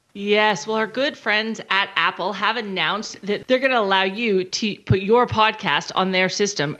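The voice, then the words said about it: Texan American accent. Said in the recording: “the best Texan accent in Perth”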